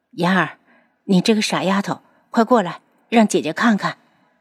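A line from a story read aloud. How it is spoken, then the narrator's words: Soft voice. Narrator (Chinese): 楚清瑶轻声道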